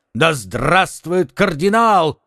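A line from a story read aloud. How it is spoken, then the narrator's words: Crowd shouting, drums. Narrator (Russian): кричали со всех сторон и повсюду били в барабаны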